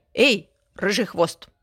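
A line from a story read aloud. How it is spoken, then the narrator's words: Grumbling hedgehog. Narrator (Russian): проворчал ёж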